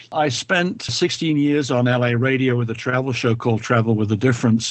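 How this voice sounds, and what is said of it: British London accent. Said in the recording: “I suspect from your accent you may not be originally from Southern California ... I'm originally from London”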